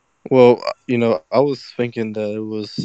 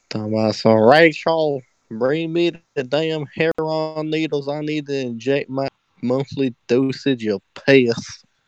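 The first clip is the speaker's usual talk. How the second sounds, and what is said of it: Old Southern man's voice. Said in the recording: “some old southern white man down in Florida ... that impersonation is spot on”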